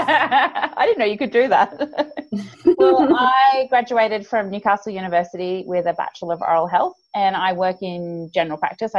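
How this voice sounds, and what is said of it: Australian accent. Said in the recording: “I'm from Australia for the listeners out there, as you can probably tell from my accent, which is a little bit grating for some people, the Australian accent.”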